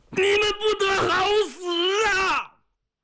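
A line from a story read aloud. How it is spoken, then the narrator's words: Dying cry, cut off. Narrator (Chinese): 这一声没喊完，他人就伏在地上不动了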